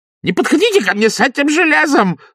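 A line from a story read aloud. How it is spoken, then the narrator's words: Shrill squeal. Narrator (Russian): завизжал Паниковский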